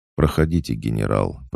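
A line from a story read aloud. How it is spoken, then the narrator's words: Even, calm tone. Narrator (Russian): произнес он ровным, спокойным тоном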